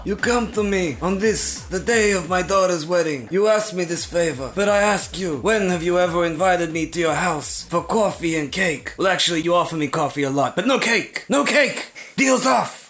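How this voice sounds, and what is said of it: Godfather character impression. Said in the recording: “Godfather impression? ... that impression”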